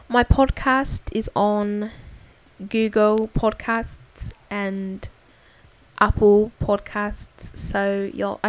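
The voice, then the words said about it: Put-on accent, poorly done. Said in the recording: “I need to stop talking like that ... my accent probably sucked”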